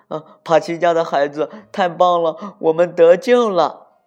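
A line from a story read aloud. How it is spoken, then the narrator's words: Excited group shouting. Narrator (Chinese): 他的兄弟们兴奋地叫着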